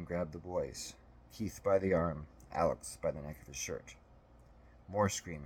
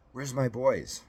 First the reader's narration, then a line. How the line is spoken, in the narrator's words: exclaimed